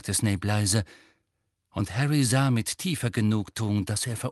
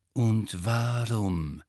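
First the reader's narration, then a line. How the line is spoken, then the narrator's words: Slow speech. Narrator (German): sagte Snape langsam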